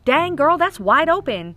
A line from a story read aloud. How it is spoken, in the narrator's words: his first knee-jerk reaction was to yell